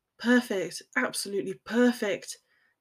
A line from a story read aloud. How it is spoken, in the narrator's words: he muttered against the juncture of her shoulder